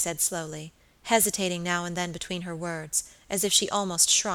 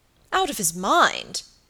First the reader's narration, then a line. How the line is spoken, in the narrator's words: cried Sir Michael